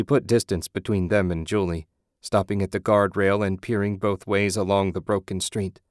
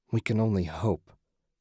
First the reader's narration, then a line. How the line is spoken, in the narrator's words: Susan muttered